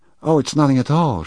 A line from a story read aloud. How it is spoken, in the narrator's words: she cried, with a sudden shrill note in her voice